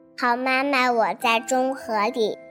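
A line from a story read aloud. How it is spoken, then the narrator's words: Thin voice calling out. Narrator (Chinese): 一个细细的声音喊叫道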